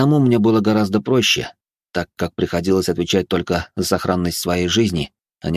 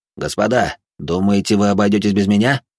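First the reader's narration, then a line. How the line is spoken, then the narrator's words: Plain. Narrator (Russian): спросил Жумельяк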